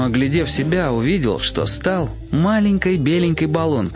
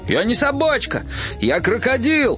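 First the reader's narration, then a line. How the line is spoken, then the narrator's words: Shouting. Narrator (Russian): закричал Гоша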